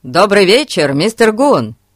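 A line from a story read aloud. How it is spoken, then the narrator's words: Shout. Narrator (Russian): крикнул Фати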